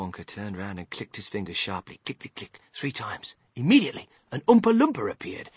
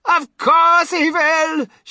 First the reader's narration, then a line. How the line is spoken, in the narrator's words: shrieked Mrs